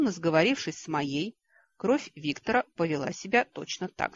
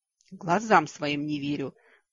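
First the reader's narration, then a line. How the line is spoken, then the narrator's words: Breathless exclamation. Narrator (Russian): выдохнул придворный маг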